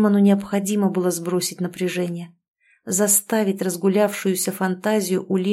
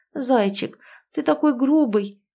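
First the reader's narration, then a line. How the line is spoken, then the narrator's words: Babbling. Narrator (Russian): лепетала Ангелина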